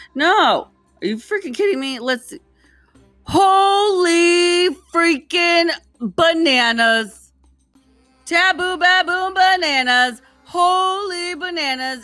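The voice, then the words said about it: Screaming excitedly. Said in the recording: “I'm sorry, I'm screaming.”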